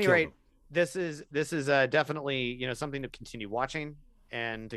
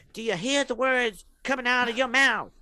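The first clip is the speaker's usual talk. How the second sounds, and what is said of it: Imitates another person's voice. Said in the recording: “my worst Chris Rock impression”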